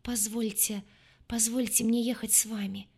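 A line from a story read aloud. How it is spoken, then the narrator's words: Trembling babbling voice. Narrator (Russian): пролепетал Эмиль трепетным голосом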